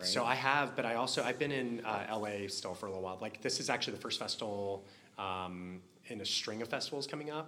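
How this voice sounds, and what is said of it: Lower, weaker voice from illness. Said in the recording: “I actually was just sick all week, so like my voice is a little lower and weaker than normal”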